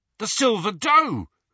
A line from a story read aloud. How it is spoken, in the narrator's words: he said excitedly